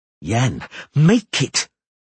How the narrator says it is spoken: she bellowed

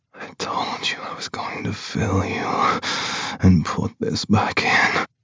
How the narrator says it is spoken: he whispers

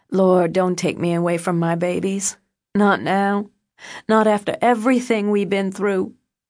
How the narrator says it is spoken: Deborah sobbed, saying

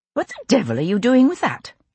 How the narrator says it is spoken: I asked sharply

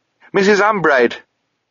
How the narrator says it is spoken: Sabriel shouted

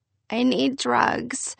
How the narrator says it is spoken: I moaned to Victor from my hospital bed

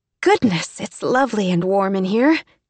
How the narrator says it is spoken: exclaimed Emmy, happily oblivious

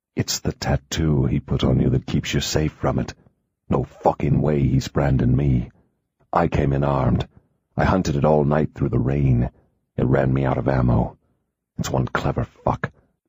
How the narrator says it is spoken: he murmured

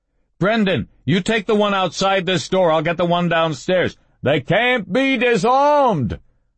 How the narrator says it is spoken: Running, Dom shouted

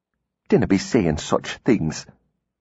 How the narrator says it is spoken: she said quietly

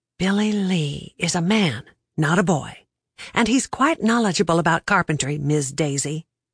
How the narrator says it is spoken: I whispered right back

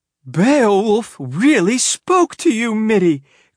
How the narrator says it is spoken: cried Mrs

